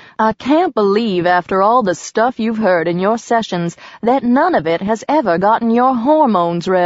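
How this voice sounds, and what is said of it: Usual voice. Nothing is said of it.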